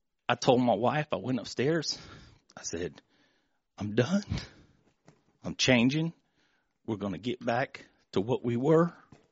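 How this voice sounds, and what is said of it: Emotional, choked-up speech. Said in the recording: “I get emotional”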